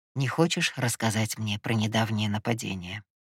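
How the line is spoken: Soft but firm reminder. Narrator (Russian): Мягко, но категорично напомнил Ива

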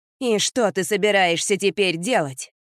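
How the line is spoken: Sharp question. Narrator (Russian): резко спросил он племянника

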